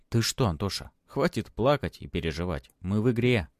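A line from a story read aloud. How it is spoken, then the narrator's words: Soothing voice. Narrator (Russian): успокаивающим голосом произнес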